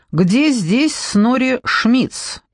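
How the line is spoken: Loud question. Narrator (Russian): громко спросил Джекоби

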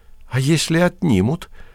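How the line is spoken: Doubtful whisper. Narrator (Russian): с сомнением прошептала Марья

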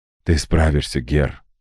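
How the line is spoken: Whispered. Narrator (Russian): шепнул

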